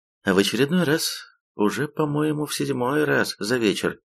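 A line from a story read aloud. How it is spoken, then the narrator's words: Timid question. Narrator (Russian): робко переспросила Рона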